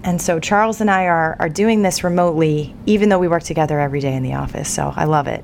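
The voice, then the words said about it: Voice sounds like she has a cold. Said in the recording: “I have a bit of a cold. ... I'm a little under the weather. ... I will try not to cough or sputter”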